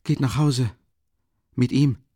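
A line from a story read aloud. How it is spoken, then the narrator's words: Halting voice. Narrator (German): sagte er mit stockender Stimme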